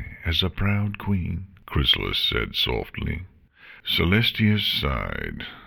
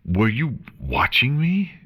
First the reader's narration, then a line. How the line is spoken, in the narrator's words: She gasped